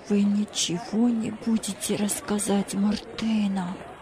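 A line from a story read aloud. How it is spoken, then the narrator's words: Fearful whisper. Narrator (Russian): прошептал Джузеппе со страхом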